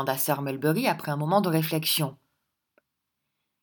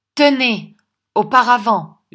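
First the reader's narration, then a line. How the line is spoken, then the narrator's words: Shouted. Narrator (French): lui cria Sir Mulberry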